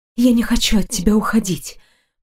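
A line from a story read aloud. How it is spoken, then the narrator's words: Barely audible whisper. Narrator (Russian): прошептала одними губами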